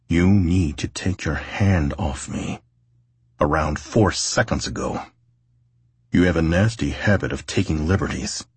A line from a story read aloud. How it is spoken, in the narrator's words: Tate gritted his teeth, and as calmly as he could, he stated